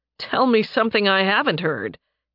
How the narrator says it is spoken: Nathan chuckled

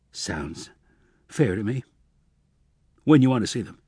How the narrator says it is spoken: He finally managed to croak

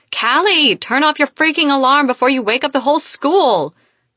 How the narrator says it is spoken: she yells

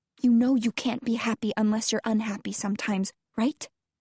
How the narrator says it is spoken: She whispers, and her voice is hoarse, as though she's just been crying

